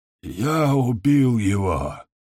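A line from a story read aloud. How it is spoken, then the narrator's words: Hoarse shout. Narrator (Russian): хрипло выкрикнул Дамиск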